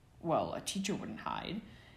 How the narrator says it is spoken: answered another sneering voice

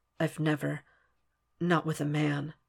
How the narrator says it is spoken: Will murmurs against the warmth of Hannibal's throat

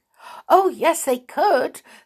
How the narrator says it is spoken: said the small stupid, suddenly and eagerly

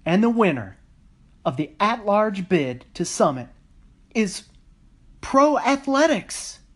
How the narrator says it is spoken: MC shouted

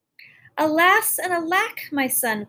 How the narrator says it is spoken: cried the queen, as if with alarm

